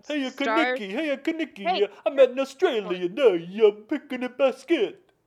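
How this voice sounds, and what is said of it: Put-on Italian accent, cartoonish. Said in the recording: “Now you sound Italian, like maybe Mario from the Mario Kart game, Mario video game.”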